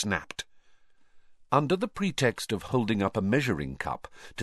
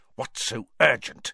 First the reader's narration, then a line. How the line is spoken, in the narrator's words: he heard Snape hiss at Karkaroff